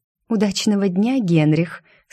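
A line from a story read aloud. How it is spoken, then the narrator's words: Sugary girlish coo. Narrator (Russian): слащавым голосом проворковала девушка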